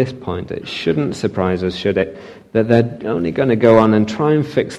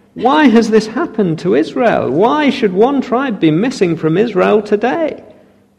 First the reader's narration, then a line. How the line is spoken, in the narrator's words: they cried